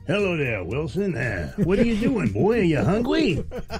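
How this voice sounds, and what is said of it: Silly old cartoon character voice. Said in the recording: “special voices ... a different impersonation ... I think it's an old cartoon character ... some dumb voice”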